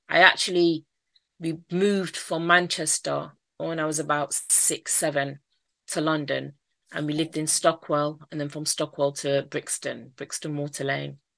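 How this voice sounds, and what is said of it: Mancunian accent. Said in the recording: “I've got a Mancunian accent ... So you can probably hear my accent.”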